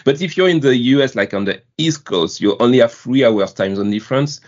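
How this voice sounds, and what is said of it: French accent. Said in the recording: “my beautiful French accent”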